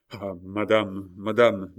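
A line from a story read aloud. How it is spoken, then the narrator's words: Faint dying murmur. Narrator (French): murmura-t-il d'une voix mourante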